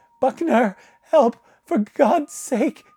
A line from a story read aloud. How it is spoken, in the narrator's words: His voice strangled in his throat